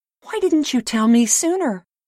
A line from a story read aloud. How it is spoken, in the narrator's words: cried